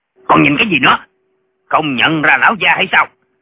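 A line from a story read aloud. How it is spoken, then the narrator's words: Shouting. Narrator (Vietnamese): Viên quan quát lên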